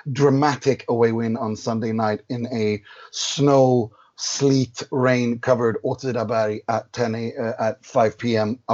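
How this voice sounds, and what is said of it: Hoarse, worn-out voice. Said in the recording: “whose voice is a little bit hoarse ... my voice is a little bit worn out ... I'm desperate to give you a throat lozenge”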